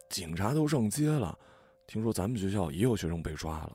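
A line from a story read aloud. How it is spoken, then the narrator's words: Low chatter. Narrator (Chinese): 学生低声闲聊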